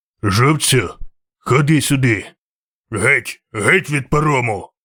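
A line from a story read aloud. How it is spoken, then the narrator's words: Injured rider growling. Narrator (Ukrainian): гарчав вершник із перев'язаною головою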